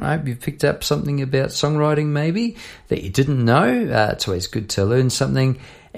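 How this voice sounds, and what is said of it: New Zealand accent. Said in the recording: “Sorry about my pronunciation. The Kiwi accent was coming through loud and clear there”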